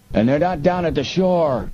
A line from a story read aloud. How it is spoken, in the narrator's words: the other yelled